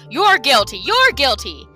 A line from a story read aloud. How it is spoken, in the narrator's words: stopping only long enough to shout